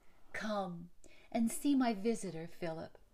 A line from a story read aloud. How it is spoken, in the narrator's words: she cried